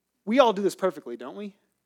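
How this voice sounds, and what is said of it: Sarcastic tone. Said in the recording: “Yeah, I'm being sarcastic.”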